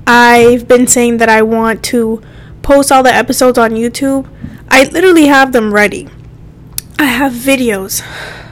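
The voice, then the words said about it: Breathless, out-of-breath speech. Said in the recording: “My God, I'm out of breath.”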